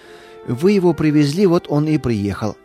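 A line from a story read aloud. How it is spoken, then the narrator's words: Calm. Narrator (Russian): спокойно ответила жена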